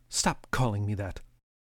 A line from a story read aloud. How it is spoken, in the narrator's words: muttered